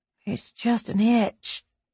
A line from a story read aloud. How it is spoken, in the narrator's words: she muttered